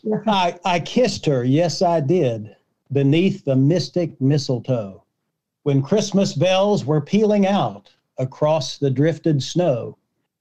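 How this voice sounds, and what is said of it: West Virginia accent. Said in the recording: “Pardon my accent, Wade. I'm from West Virginia.”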